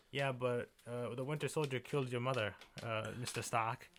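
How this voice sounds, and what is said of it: Bad put-on foreign accent. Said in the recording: “that's a bad accent.”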